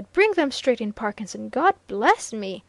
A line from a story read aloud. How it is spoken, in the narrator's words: he exclaimed